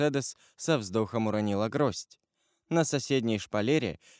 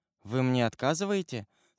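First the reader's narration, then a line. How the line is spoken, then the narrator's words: Trembling woman's voice. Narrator (Russian): сказала Мерседес дрогнувшим голосом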